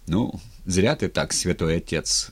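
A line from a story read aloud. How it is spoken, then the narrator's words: Plain. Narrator (Russian): сказал Матвей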